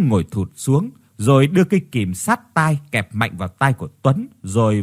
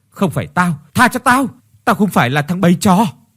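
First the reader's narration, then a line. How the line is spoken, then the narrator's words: Trembling screaming. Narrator (Vietnamese): run lên bần bật, gào thét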